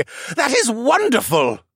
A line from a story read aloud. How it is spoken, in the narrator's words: He exclaimed